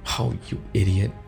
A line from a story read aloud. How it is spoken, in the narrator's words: cooed in a soft whisper